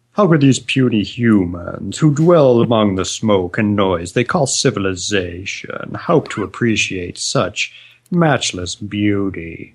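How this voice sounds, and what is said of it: Put-on grandiose British character voice. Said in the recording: “some mutant British guy who's like ... what I think he sounds like ... except he's Irish, so he doesn't sound like that at all ... that impression”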